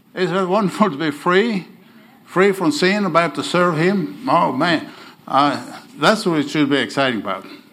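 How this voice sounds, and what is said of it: Oklahoma drawl on non-native English. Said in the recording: “my Oklahoma accent ... I'm in Okie ... I have a draw ... I hope uh, you understand my English”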